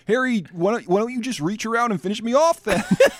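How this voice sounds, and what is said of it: Fargo-style Minnesotan accent. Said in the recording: “that sounds 100% Fargo to me, what you're doing right now”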